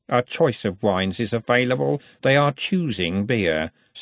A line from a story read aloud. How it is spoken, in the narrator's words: said Robert coldly